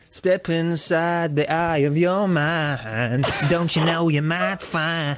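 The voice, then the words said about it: Sings in a silly voice. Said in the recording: “do a silly voice to cover up your bad singing”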